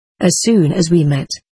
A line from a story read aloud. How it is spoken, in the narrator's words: he said